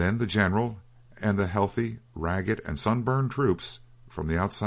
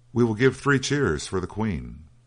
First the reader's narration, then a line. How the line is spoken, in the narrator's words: cried